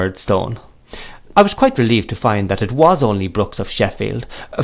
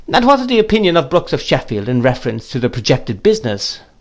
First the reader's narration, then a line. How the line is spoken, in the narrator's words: After some laughing, the gentleman whom he had called Quinion said